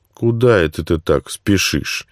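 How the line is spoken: Mocking question. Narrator (Russian): насмешливо спросил другой комендант

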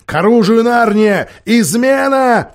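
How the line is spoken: Alarmed shout. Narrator (Russian): закричал Питер

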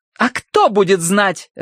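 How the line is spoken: Barked. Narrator (Russian): рявкнула Уордер

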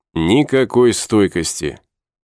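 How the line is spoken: Scoffing snort, young man. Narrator (Russian): Молодой вожак хмыкнул

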